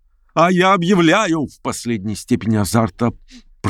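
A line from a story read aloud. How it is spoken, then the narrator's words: Shrill squeal. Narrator (Russian): провизжал Степан Трофимович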